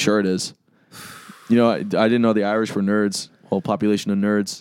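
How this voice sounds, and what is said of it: Usual voice. Nothing is said of it.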